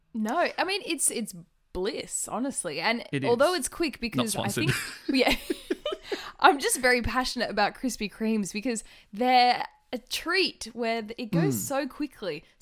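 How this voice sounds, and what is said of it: Excited, rising louder voice. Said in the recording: “my voice is raising. I think I'm getting quite excited. I might need to move away from the mic.”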